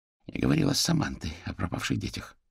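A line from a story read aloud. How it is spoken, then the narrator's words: Almost a whisper. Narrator (Russian): практически прошептала Альма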